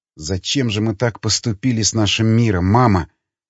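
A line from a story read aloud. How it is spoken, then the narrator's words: Whispered. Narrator (Russian): Прошептала она снова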